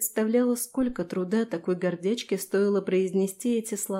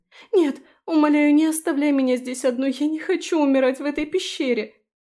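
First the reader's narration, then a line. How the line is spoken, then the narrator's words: Sobbing, forced out. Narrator (Russian): Фелиция всхлипнула, потом выдавила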